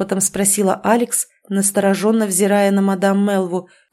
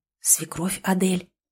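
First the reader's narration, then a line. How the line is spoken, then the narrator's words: Whisper. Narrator (Russian): также шепотом ответила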